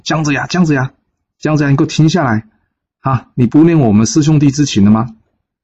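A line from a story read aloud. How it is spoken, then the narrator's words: Increasingly urgent calling. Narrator (Chinese): 声音越叫越急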